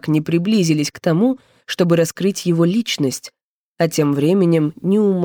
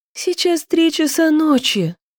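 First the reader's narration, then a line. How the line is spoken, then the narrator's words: Groaned. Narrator (Russian): простонала Яна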